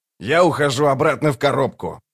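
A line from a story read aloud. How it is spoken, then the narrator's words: Grumbling. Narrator (Russian): проворчал Локон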